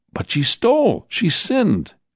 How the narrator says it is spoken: The man cried

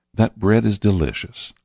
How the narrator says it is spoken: I said, smiling softly

